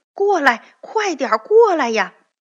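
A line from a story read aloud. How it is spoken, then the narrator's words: Loud shouting. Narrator (Chinese): 铁皮人对同伴们大声喊着说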